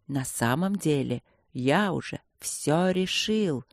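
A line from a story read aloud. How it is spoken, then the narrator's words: Haughty whisper. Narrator (Russian): несколько высокомерным шепотом признался Инландер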